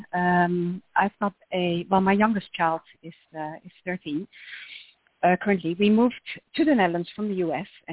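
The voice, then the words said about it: Dutch accent. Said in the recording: “you can tell by my accent that we're Dutch”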